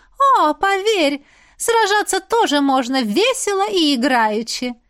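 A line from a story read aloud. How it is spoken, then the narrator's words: Laughing witch. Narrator (Russian): засмеялась ведьма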